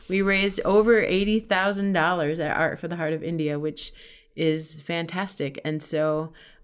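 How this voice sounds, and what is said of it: Slightly worn-out, tired voice. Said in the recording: “my voice is a little bit worn out from last night”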